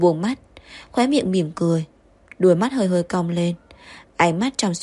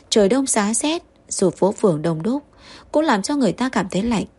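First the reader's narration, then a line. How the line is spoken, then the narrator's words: Smiling, gentle. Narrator (Vietnamese): Lục Nghiên mỉm cười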